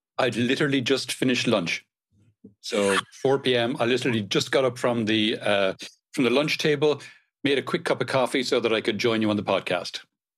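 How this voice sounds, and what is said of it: Irish accent, Cork. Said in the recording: “accent kind of belays a little bit. You're not obviously Spanish ... Definitely not looking nor sounding ... I'm originally from Ireland, originally from Cork on the south coast of Ireland.”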